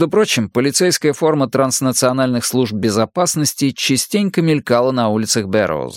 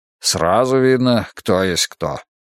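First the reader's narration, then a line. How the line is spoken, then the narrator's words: Gruff mutter. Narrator (Russian): буркнул Беркин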